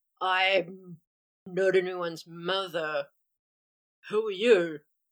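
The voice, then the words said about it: Deep character voice. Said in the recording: “deep voice, but not with a Scottish accent”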